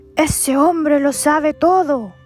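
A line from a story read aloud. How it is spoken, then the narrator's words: Terrified shouting. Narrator (Spanish): todo aterrorizado salió de ahí gritando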